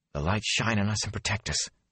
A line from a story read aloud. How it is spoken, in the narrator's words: Nynaeve whispered